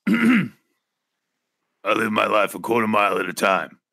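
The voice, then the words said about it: Imitates another person's voice. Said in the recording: “your best impression of ... That's my Vin Diesel ... That's a good Vin Diesel”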